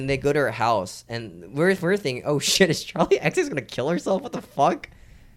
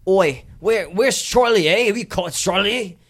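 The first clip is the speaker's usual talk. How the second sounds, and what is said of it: Put-on Cockney accent. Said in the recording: “What the fuck accent is that? ... It's a Cockney accent that they do.”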